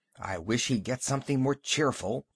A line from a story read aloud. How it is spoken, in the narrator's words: Emerald whispered to Lou